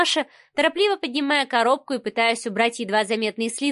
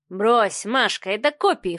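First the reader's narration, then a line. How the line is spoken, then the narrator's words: Snorted dismissively. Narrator (Russian): фыркнул Адмиралов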